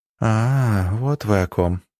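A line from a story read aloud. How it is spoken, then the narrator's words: Tense drawl. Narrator (Russian): напряженно протянула барышня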